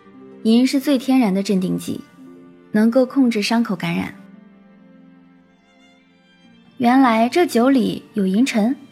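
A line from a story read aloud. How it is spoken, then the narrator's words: Calm flat reply. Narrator (Chinese): 天树幽花淡淡的回答道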